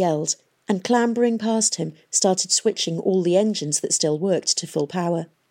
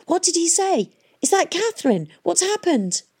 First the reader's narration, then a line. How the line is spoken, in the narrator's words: Tom was shouting